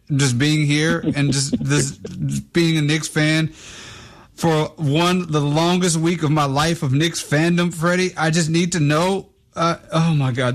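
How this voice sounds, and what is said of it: Choked up, tearful voice. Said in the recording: “getting choked up. I'm getting choked up. ... while I'm crying. I'm a little emotional”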